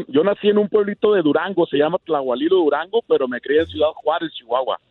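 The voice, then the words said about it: Radio announcer voice. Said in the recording (Spanish): “ahorita estás haciendo la voz de locutor”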